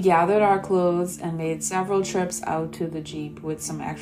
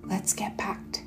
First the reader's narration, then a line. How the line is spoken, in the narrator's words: he whispered